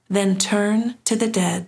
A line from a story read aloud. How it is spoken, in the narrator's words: said Jung